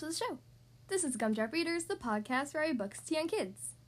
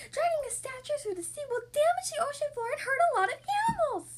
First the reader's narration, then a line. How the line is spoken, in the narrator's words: Kitty wailed